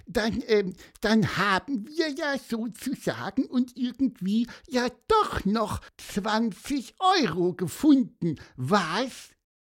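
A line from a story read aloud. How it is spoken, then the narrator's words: Squeaked. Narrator (German): piepste Pieper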